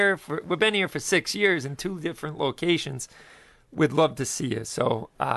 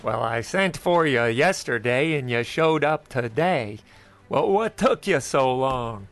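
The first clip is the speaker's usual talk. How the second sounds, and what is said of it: Poor imitation of a cowboy actor. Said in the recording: “steal a page out of John Wayne's book ... That's a terrible impersonation of John Wayne”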